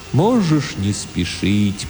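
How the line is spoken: Strange sad distant voice. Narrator (Russian): произнес Тимулки очень странным, грустным, далеким, философическим голосом

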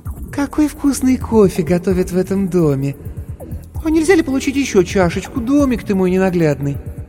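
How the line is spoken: Sugary, cloying voice. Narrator (Russian): сказала приторно-умильным голосом

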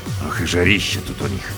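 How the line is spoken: Grumbling. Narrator (Russian): проворчал

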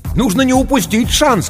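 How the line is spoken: Stranger shouting over phone. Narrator (Russian): кричал в трубку незнакомый голос

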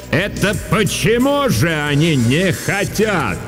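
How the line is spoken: Sudden booming voice. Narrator (Russian): вдруг прогремел на весь класс голос Дурцевой

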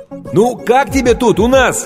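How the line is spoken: Shouting over loud din. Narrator (Russian): крикнул Стэн ей прямо в ухо, поскольку уровень грохота в зале неуклонно возрастал

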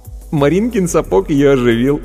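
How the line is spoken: Giggling. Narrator (Russian): хихикнув, сказал Вовка

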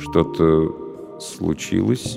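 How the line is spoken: Slow question. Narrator (Russian): медленно спросил он

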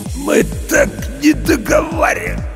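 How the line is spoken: Hoarse wheeze. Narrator (Russian): прохрипел Серега

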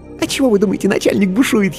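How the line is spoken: Giggling whisper. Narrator (Russian): хихикнув, шепнула она

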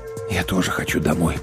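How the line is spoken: Whispered. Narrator (Russian): прошептал я

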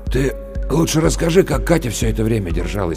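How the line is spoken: Hoarse interruption. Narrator (Russian): прервал Максим Лешин хриплым голосом

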